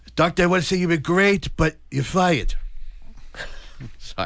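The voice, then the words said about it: Bad Donald Trump impression. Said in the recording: “that was a bad impression of Donald Trump there”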